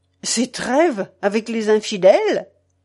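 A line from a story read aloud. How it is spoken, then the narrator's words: Abrupt interrupting exclamation. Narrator (French): s'écria-t-il, sans s'inquiéter de la manière abrupte dont il interrompait l'altier templier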